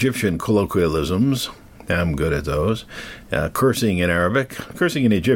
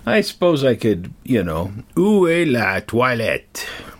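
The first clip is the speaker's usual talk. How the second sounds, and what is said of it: Nasal put-on French accent. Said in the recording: “See how I do that nasally? ... I cannot speak French, but I can do the accent a little bit, as did Pepe Le Pew”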